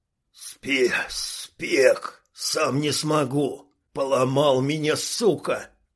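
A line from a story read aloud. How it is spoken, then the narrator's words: Hoarse wheeze. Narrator (Russian): Прохрипел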